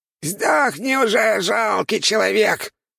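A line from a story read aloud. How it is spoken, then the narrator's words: Squeaky monster voice. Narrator (Russian): пропищал монстр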